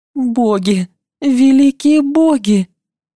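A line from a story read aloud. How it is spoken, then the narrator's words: Moan. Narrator (Russian): Простонала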